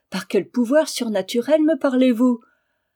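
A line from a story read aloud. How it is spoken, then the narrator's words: Exclamation. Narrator (French): s'écria-t-elle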